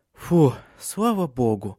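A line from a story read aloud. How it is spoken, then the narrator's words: Relieved sighing woman. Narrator (Russian): облегченно вздохнула Силия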